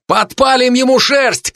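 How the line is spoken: Shout. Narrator (Russian): крикнул я

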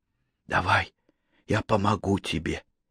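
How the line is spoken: Slightly hoarse, hurried. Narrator (Russian): чуть хрипло произнесла, тоже спеша начать

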